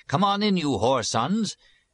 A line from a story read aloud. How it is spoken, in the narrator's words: the abbot cried